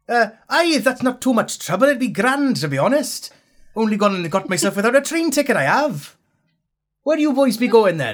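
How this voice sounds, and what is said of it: Put-on Welsh accent, poorly done. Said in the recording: “I'm picking up the accent ... It's terrible, that ... I'm going for Welsh.”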